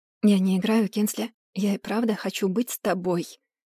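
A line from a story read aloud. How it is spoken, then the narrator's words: Whisper in ear. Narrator (Russian): прошептал он мне на ухо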